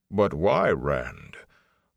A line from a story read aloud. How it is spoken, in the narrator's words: Loyal said slowly